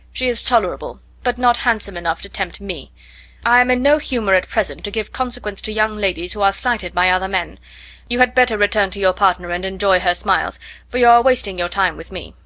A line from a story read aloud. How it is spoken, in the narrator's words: coldly said